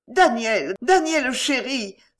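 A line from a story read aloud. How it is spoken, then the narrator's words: Exclaiming. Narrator (French): s'écria Madame Marondier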